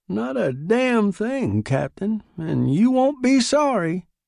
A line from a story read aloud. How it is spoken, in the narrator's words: cried Nibley